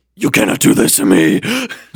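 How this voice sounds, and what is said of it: Deep menacing character voice. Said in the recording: “in a deep voice.”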